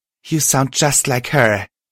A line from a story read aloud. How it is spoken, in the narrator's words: Twilight said, grinning wearily